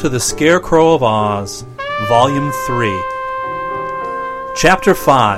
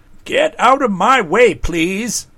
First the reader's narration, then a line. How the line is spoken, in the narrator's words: called in a fretful voice